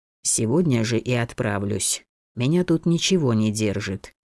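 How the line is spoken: Plain. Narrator (Russian): ответил Эргет

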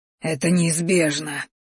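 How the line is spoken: Rasped. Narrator (Russian): прохрипел боевик

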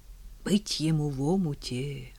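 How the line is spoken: Group whispering. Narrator (Russian): шептались

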